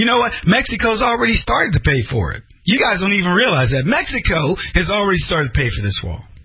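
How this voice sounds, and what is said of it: Usual voice. Nothing is said of it.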